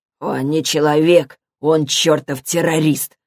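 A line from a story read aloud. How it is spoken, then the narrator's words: Growled. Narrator (Russian): прорычал Билли Нун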